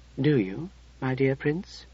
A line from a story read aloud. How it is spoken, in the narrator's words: she asked gently